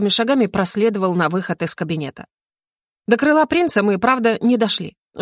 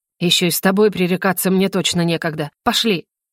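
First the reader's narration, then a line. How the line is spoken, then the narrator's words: Through gritted teeth. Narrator (Russian): нервно дернул шеей и сквозь зубы произнес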